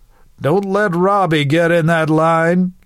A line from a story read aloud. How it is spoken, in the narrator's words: Luke called out, ribbing his younger brother